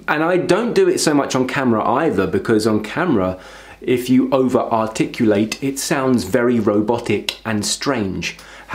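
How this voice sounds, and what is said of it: East London accent. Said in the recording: “I don't articulate myself as well as I really should, because my accent from East London doesn't always require you to finish sentences”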